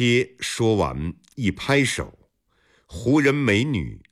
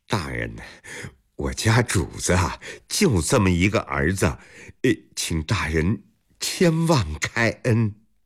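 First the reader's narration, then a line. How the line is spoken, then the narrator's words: Ingratiating smile. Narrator (Chinese): 波贴陪着笑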